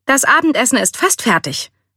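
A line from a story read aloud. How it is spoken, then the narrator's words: Forced cheerful announcement. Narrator (German): verkündete er bemüht fröhlich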